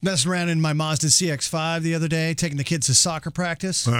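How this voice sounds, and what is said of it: Usual voice. Nothing is said of it.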